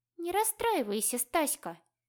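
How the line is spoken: Purr. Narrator (Russian): мурлыкнула она

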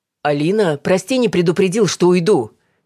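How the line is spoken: Shouted from another room. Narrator (Russian): крикнул из прихожей Давид

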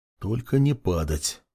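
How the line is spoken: Frightened mutter. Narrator (Russian): Перепуганно бормотал парень

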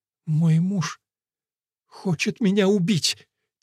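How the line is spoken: Sobbing. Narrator (Russian): Тилли разрыдалась

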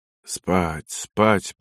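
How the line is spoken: Mutter. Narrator (Russian): пробормотал лейтенант

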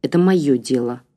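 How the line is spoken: Cold reply. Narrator (Russian): холодно ответил Игорь

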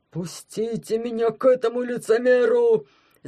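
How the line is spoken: Yelling. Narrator (Russian): завопил Пятикантроп

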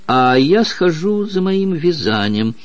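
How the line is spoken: Sighing. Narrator (Russian): вздохнула докторша

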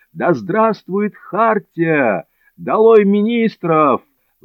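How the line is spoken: Crowd yelling. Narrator (Russian): вопили они

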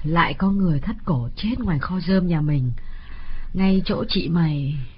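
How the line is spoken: Woman's mournful sigh. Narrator (Vietnamese): Bà Chánh thở dài não nuột

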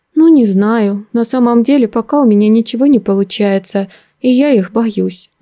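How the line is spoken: Timid admission. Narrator (Russian): робко призналась я

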